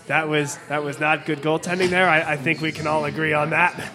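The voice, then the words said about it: Imitates another person's no-nonsense voice. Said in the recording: “in his classic accent, no-nonsense voice”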